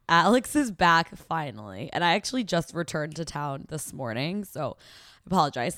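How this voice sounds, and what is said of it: Hoarse, fading voice. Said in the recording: “Last 2 weeks I've had like allergies, a cold, and now I'm losing my voice.”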